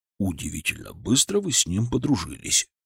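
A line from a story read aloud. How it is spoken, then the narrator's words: Whispered. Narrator (Russian): шепнул мне Леонид Францевич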